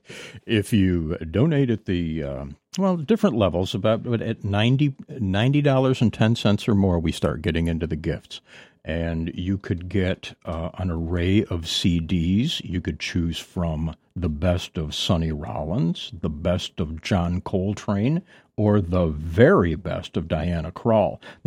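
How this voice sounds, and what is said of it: TV announcer voice. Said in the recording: “Use your TV announcer voice.”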